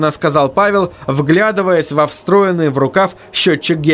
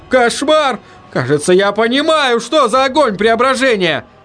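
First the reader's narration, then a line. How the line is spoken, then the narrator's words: Shout. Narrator (Russian): закричал Ленни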